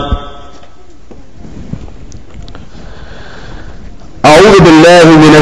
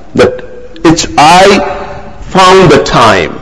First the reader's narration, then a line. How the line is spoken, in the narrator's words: he cried